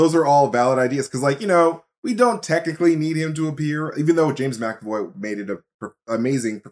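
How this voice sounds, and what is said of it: Usual voice. Nothing is said of it.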